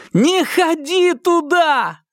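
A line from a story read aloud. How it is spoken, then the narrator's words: Belated shout. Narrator (Russian): запоздало закричал Марк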